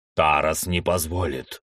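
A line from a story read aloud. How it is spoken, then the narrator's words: Muffled, low warrior's voice. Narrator (Russian): глухо произнес воин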